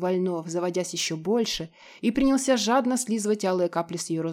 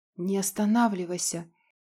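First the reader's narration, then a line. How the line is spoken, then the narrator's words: Hoarse breathless exhale. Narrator (Russian): Сипло выдохнула девчонка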